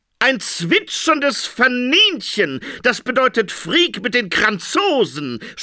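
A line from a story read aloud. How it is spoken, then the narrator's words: Dream interpreter shouting. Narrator (German): schrie der Traumdeuter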